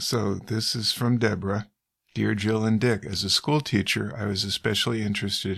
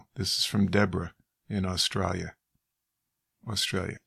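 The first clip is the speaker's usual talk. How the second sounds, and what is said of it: Put-on Australian accent. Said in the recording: “I was slipping into my Crocodile Dundee accent.”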